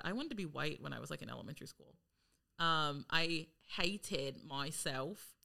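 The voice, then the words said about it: Put-on British accent. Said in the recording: “she spoke in British ... I don't want you to criticize my accent.”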